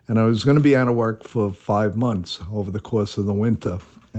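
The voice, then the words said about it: New York accent. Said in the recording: “as I can kind of tell from your accent, you are a born and bred New Yorker”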